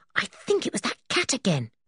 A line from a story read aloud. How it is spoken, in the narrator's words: he whispered